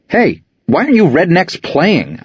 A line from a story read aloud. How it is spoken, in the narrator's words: yelled